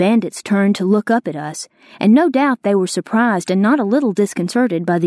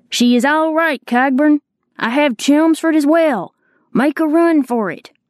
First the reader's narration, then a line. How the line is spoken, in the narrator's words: Labeef cupped his hands and shouted down